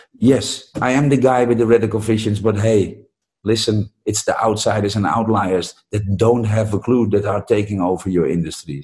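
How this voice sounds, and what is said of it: Non-native funky English accent. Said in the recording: “The guy with the funky accent ... Funky accent”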